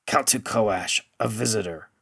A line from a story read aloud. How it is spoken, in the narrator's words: the wizened one rasped